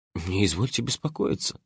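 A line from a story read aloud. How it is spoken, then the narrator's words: Slightly sarcastic mutter. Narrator (Russian): слегка саркастически пробормотал я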